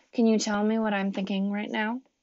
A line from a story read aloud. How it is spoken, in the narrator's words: he asked quietly